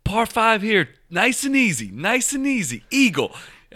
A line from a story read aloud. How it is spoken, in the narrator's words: just yelling stuff out